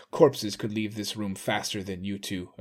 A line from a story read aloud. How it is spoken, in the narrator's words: Aramuro snarled